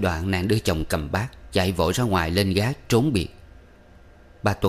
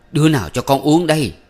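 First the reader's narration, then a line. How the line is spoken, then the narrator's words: Wailing scream. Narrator (Vietnamese): bù lu bù loa bà thét gọi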